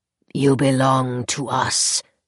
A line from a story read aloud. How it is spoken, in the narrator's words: rasped the other